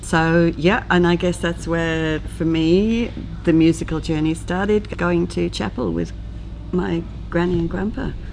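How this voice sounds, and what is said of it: Welsh accent. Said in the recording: “I do detect an accent. Where's that from? ... From Wales originally.”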